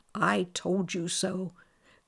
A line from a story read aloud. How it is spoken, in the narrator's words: said the queen whispered